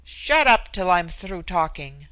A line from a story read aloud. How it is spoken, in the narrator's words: she admonished him roughly